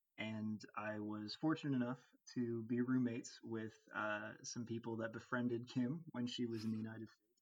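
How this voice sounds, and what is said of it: American accent. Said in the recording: “as you can tell from ... accent, he is American.”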